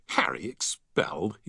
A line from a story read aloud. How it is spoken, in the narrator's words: he scoffed